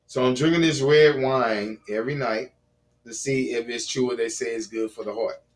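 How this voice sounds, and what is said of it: Hoarse, dry voice. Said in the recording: “my voice sounded hoarse, but it's kind of dry”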